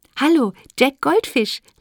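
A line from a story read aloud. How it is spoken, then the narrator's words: Laughing. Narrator (German): lachte Lotte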